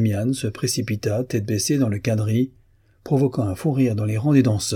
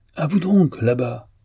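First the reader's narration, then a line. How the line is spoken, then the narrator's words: Dance master exclaiming. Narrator (French): s'écria la voix du directeur des danses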